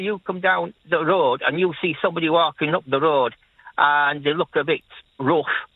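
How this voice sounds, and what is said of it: Leeds Yorkshire accent. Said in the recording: “you just mention my accent, and I say, yeah, I'm from Leeds”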